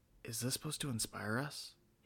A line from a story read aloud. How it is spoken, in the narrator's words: whispered